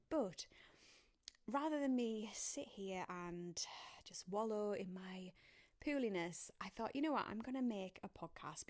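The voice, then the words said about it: Congested voice with a cold. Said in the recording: “I have got a bit of a cold... you can probably hear in my voice that, I'm just not feeling 100%”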